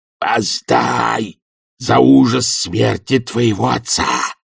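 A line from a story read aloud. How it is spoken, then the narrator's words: Thunderous stage whisper. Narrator (Russian): громовым шепотом подсказал он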